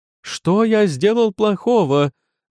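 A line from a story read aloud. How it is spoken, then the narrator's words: Exclaiming. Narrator (Russian): воскликнул Город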